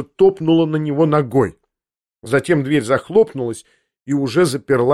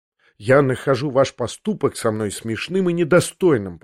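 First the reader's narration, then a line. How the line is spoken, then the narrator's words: Indignant mutter. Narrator (Russian): пробормотал я в негодовании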